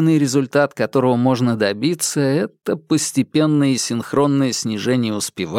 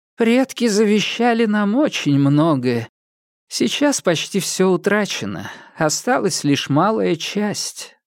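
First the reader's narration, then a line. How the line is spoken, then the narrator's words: Grandmother sighing. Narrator (Russian): вздохнула стоявшая рядом бабушка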